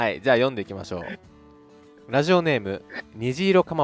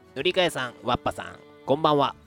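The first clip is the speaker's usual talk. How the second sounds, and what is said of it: Imitates another person's voice. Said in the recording (Japanese): “声真似します、僕。虹色かまぼこさんの。”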